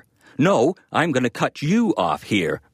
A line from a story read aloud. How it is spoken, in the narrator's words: Regan bellowed